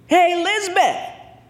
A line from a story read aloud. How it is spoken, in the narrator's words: Joey yelled